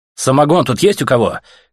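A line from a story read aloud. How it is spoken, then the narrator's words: Hoarse shout. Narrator (Russian): крикнул Артем драным джунглем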